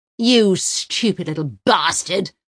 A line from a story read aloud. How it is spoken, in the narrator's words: Uwe roars in the face of the shaven-headed young man with throat tattoos, his spittle cascading over their seats